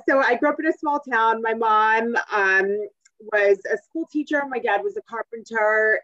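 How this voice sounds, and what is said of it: Rhode Island border New England accent. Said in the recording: “I grew up in a small town, Blackstone, Massachusetts. It's right on the Rhode Island border, which is where I got this funny accent.”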